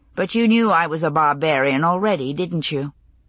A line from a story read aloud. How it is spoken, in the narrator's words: He grunted in response